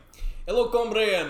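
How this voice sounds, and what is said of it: Put-on Russian accent. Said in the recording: “he's a Russian guy... Can I do accent?... that's really how he talks”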